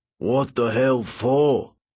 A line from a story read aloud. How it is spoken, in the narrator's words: he growled when I told him where I wanted to go